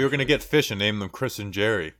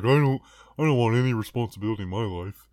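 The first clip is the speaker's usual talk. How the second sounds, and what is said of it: Good impersonation of a friend. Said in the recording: “That's a very good impersonation of me.”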